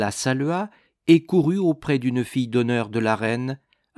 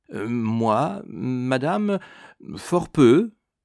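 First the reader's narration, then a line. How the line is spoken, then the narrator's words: Stammering. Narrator (French): répondit-il en balbutiant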